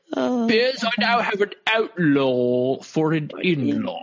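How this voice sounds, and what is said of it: Put-on British accent. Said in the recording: “I'm British ... because my British accent is notoriously excellent on this podcast.”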